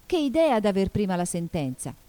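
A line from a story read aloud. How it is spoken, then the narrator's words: Exclaimed. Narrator (Italian): esclamò Alice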